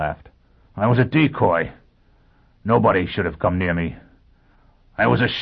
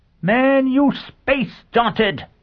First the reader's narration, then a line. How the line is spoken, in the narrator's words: Sheffield said savagely